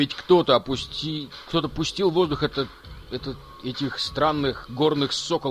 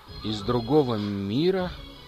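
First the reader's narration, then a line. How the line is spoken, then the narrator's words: Barely audible. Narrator (Russian): Это прозвучало еле слышно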